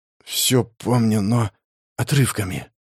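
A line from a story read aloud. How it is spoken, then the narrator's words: Whisper. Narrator (Russian): прошептал Синельников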